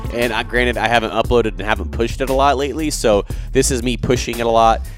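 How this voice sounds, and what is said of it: Voice sounds a little sick. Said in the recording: “Yes, I'm a little sick. You guys can probably hear it in my voice.”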